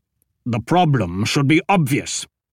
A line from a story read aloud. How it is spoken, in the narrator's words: Ashok said through gritted teeth